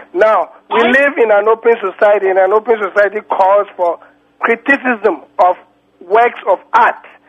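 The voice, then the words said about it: Non-American accent. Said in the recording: “You don't sound like any American I know about.”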